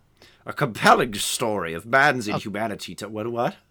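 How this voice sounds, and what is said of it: Mark Strong or Stanley Tucci impression. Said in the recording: “your impression, initial was very good ... It was very Mark Strong or Stanley Tucci.”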